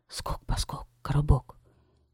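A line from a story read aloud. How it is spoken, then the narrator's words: Whisper. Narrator (Russian): Гейсберт прошептал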